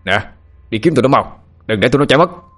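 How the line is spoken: Shouted command. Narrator (Vietnamese): Một tên mafia hét lên, lệnh cho đám lính dưới

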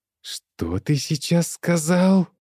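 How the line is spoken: Snake-like hiss. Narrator (Russian): Каким-то змеиным шипением произнесла женщина

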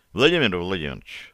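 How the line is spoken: Plain. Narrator (Russian): ответил Одинцов

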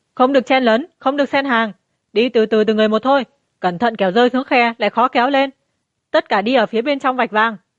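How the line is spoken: Loud bellowing through megaphone. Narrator (Vietnamese): Đám quỷ sai dưới trướng Phùng Đô cầm loa lớn gào lên

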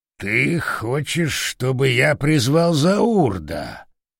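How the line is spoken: Drawling. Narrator (Russian): протянул Орангутан

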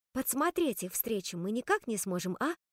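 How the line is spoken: Whispered question. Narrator (Russian): шепотом спросила я у Айви

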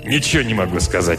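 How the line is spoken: Grumbling. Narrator (Russian): проворчал Диммак

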